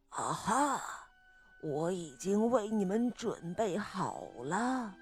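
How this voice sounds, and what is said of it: Hoarse, raspy character voice. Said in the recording (Chinese): “他用沙哑的声音说道”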